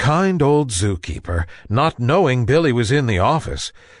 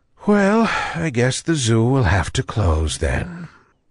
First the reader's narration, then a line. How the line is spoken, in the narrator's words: sighing sadly, he said